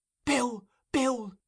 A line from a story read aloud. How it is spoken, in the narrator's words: gasped the girl, wrestling with the strength of mortal fear